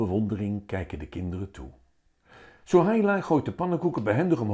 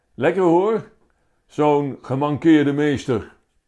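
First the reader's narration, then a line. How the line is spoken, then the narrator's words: Calling out. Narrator (Dutch): Joris roept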